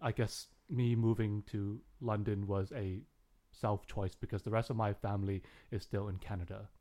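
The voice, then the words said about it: Canadian accent. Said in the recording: “speaking to you here in a Canadian accent”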